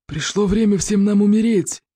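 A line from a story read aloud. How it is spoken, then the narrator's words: Monstrous growl. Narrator (Russian): прорычал зеленый смерч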